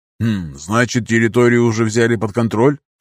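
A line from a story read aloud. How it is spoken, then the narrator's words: Skeptical snort. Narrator (Russian): хмыкнул Нардин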